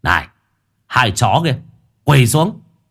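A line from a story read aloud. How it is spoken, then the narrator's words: Shouting. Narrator (Vietnamese): có kẻ thì hét lên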